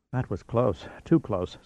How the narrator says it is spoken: Stacy sighed

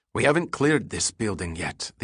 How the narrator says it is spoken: the Israeli whispered in a hard tone

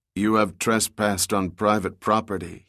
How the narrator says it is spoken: replied in a monotone voice that was short on mercy

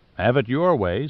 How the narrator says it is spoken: said Overmeyer

